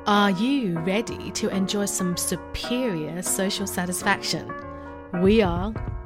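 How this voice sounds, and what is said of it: British accent voice reel read. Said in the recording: “my British accent voice reel”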